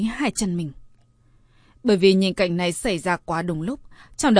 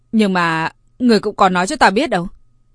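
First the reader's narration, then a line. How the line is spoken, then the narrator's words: Slightly annoyed. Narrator (Vietnamese): Vệ Uyên cũng có chút tức giận, nói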